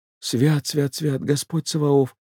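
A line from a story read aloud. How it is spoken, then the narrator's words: Whisper. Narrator (Russian): прошептал Егорушка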